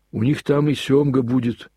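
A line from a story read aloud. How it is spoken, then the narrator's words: Sudden loud boy's remark. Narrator (Russian): громко заметил вдруг мальчик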